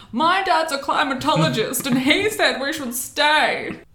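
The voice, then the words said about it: Imitates another person's voice. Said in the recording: “that was my perfect Jake Gyllenhaal impression.”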